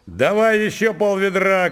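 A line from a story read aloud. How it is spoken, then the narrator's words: Shouting. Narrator (Russian): крикнул Лукашка матери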